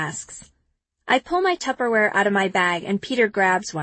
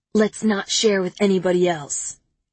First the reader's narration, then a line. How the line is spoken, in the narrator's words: he says